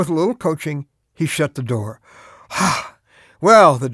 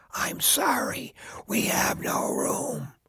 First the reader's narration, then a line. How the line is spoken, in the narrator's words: a loud whisper